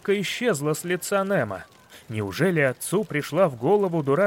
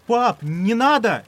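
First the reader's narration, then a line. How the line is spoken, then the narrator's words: Shouted. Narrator (Russian): закричал Немо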